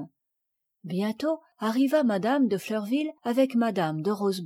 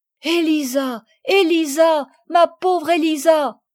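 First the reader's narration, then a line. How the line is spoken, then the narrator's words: Tearful cries, choked off. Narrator (French): s'écrièrent Camille et Madeleine, que les larmes empêchèrent de continuer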